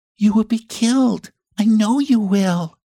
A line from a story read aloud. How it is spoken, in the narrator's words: she sobbed